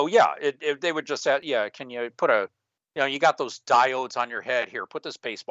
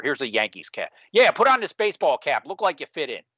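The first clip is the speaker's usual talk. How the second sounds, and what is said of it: Bad put-on New York accent. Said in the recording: “apology to our New York listeners for my bad accent”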